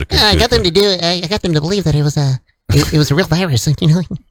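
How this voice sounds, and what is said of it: Imitates another person's voice. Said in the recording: “my impersonation of Bill Gates ... You're almost channeling. Kermit the Frog there. Just one octave higher.”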